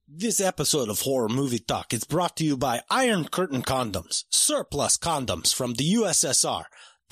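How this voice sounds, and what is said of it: Put-on Russian accent. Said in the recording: “Russian accent”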